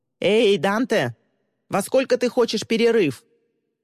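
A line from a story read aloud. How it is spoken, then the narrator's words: Woman shouting. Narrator (Russian): блондинка крикнула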